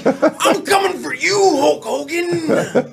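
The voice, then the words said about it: Imitates a WWF wrestler's voice. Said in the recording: “WWF back in the day... It's Macho Man Randy Savage”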